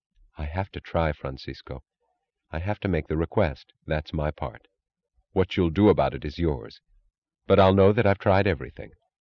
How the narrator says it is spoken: She said quietly

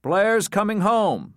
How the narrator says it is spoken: Frohmeyer repeated loudly

